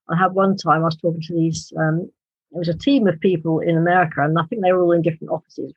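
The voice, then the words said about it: British accent. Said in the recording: “they love my British accent”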